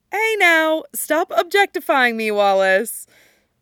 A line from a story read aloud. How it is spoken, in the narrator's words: Veronica says, laughing